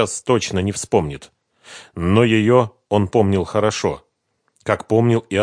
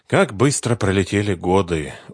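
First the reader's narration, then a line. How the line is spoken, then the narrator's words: Sighing. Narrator (Russian): вздохнул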